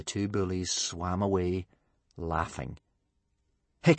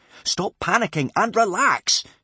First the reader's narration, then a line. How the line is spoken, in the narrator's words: shouted Hiccup sharply